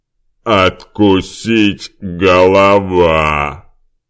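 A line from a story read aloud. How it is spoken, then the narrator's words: Growling. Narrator (Russian): Прорычал Димка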